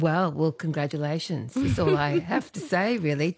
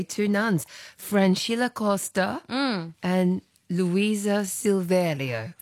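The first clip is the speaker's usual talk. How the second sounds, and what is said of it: Brazilian accent, rolled R's. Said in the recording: “with our best Brazilian accent. Impressive, isn't it? ... You just roll those R's.”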